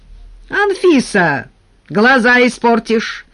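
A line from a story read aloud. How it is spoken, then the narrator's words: Distant shout. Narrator (Russian): кричал из сада Николай Никитич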